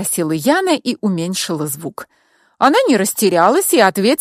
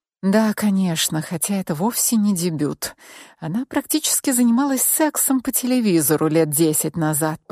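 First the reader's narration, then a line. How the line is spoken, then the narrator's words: Secretive whisper. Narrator (Russian): прошептала я, чтобы ты, Алиса, не услышала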